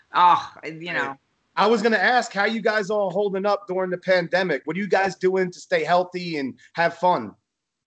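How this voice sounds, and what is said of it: New York-area accent. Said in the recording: “Your accent is so comforting to me because I'm from New York”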